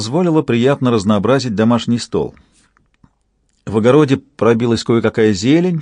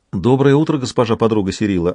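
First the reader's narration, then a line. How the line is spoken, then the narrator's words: Plain. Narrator (Russian): ответила Кефрия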